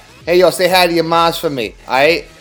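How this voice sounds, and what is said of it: Exaggerated Italian-American Guido voice. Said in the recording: “This is Guido Claus ... That sounds Italian”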